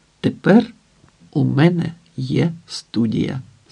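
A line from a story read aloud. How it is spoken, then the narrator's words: Plain. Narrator (Ukrainian): сказав Данко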